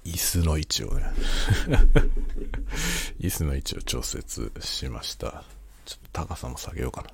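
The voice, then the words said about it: Quiet, hushed late-night speaking. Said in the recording (Japanese): “深夜の 小声雑談”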